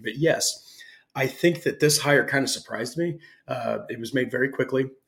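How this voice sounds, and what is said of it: Slightly raspy, scratchy voice. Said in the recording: “probably the last day of having a scratchy throat ... sorry if my voice is a little raspy”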